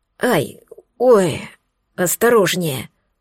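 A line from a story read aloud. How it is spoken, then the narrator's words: Moaning. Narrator (Russian): простонал Алекс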